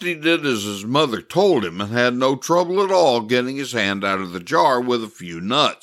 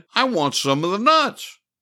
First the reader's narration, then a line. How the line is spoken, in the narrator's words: he cried